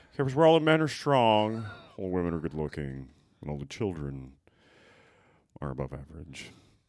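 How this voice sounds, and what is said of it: Bad Garrison Keillor impression. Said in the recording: “my bad Garrison Keillor impression”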